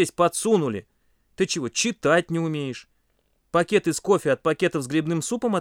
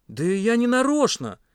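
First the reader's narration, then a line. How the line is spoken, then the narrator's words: Timid babble. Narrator (Russian): пролепетал Паша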